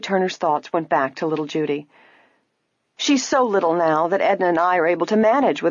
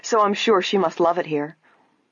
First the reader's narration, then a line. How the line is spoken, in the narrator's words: Nancy said quickly